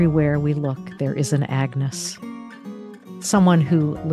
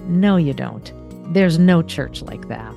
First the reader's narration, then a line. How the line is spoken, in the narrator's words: Harry waited a moment and then almost sneered as he answered